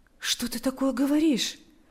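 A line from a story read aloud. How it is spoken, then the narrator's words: Comforting tone. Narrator (Russian): произнес Павел утешающим тоном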